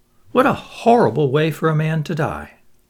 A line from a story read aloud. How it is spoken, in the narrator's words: He sighed